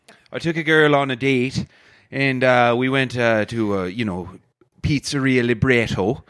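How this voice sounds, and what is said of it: Irish accent. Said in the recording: “Toronto girls, they love my accent ... I'm Irish and proud”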